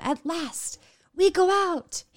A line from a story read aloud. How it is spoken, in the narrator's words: he cried for her